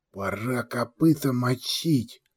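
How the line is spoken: Whispered. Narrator (Russian): прошептал стоящий рядом боец Ручка

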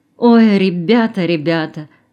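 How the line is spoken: Sighing. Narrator (Russian): вздохнула она

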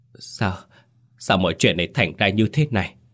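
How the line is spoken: Stunned sobbing. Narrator (Vietnamese): Mấy chị con dâu thì sững sờ, nức nở

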